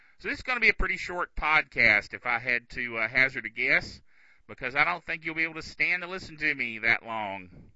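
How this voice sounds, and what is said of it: Yelling, slightly odd-sounding voice. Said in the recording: “I'm barely getting enough signal for you to even hear me. So that's why I sound a little bit weird, and that's why I'm yelling.”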